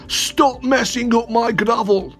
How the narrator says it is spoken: he yelled

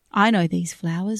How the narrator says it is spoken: Winnie said

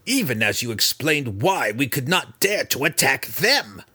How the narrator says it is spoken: Breeza growled at her mother

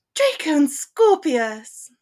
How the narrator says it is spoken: her mother exclaimed, the delight in her voice

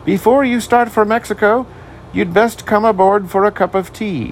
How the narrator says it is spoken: he shouted

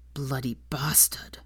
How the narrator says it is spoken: Draco muttered mutinously

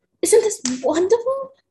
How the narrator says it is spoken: I squealed like a toddler, bouncing up and down on my bed

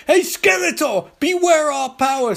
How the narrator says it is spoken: screams Sky

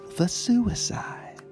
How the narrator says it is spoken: The lady, acting for all the world like the consummate Southern belle, whispered

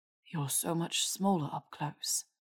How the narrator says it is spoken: Malfoy murmured

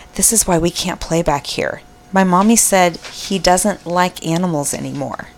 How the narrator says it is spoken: She leaned in and whispered

